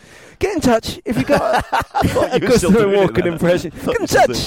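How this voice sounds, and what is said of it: Usual voice. Nothing is said of it.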